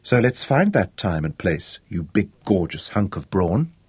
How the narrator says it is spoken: thought happily to herself

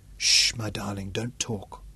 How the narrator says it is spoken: whispered into his mouth

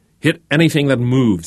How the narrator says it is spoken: he yelled

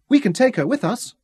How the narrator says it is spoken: Jonathan suggested eagerly

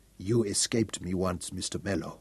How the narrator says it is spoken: Peter Fungerbearer said softly

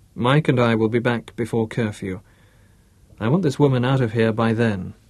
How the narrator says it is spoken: said Bruce

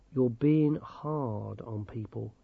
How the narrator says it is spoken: he said quietly

